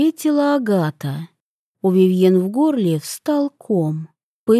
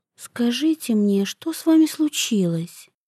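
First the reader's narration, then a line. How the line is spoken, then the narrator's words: Quiet. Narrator (Russian): тихо проговорила Вивьен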